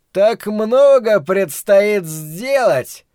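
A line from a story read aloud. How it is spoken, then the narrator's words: Joyful exclamation. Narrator (Russian): радостно воскликнул Флэг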